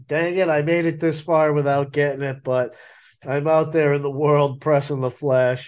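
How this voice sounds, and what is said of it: Sick-sounding voice. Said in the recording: “hear it in my voice, but I am not feeling great. I tested positive for COVID”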